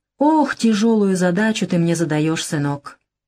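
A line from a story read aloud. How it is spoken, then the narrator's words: Sigh, older man. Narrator (Russian): Дядя Яни вздохнул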